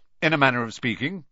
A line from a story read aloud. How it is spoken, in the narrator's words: said Uncle Vernon